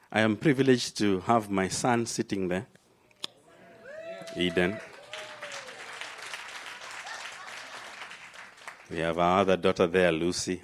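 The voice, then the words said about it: Kenyan accent. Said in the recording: “There's a strong African presence in the house ... In case you're struggling with my accent ... I landed in an African womb in Kenya”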